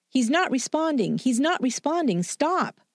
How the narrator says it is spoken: she screamed at him

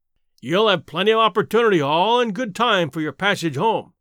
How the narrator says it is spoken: the policeman growled

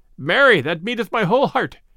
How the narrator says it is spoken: cried the stranger

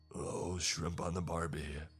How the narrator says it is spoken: he said, in thickly accented English

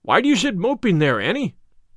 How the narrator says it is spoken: cried her brother

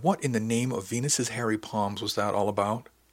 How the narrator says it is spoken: He asked softly

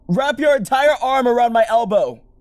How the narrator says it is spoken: I shouted

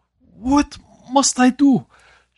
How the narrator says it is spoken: choked out between racking sobs

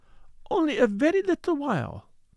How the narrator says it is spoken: pleaded the other

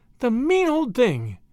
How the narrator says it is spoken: she exclaimed indignantly

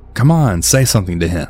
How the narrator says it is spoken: Blue started laughing, and she said

